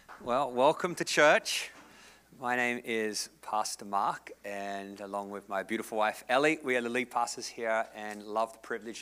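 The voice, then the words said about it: Australian accent. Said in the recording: “I'm from the south coast of Australia ... This is the accent in heaven.”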